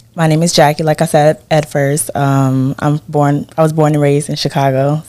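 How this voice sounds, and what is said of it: Loud, slightly yelling voice. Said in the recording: “I'm yelling a little.”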